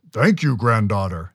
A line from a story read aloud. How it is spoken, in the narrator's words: the Chenoo rumbled